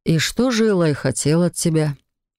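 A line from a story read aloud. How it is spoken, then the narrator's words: Deceptively gentle inquiry. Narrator (Russian): Обманчиво ласковым тоном осведомился Себастьян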